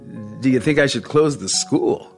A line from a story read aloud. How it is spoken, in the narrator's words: David laughed bleakly